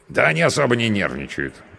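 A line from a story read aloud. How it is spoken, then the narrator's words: Grunting, wry. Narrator (Russian): хмыкнул мой спутник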